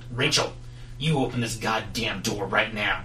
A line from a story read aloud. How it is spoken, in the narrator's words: he bellows